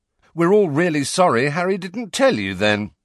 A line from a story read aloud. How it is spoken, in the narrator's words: said Fred loudly